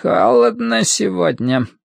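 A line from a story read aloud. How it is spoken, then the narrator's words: Old man creaking. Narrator (Russian): проскрипел старик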